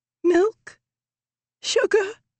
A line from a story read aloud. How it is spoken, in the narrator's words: croaked